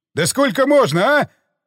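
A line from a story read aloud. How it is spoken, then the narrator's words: Yelling. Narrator (Russian): заорал он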